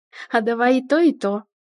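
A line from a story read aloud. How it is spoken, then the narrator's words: Snorting, earnest assurance. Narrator (Russian): хмыкнула и клятвенно заверила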